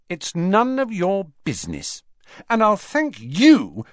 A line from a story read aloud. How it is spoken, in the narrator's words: she added angrily